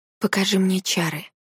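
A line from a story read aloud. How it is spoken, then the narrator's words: Whisper. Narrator (Russian): шепнула я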